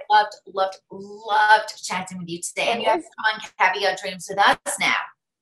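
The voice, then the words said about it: Mixed regional accent, partly Jersey. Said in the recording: “You might not understand my accent ... My accent. People write all the time, where is your accent from? ... Jersey, a little bit of this, a little bit of that.”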